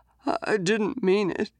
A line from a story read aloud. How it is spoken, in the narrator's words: whimpered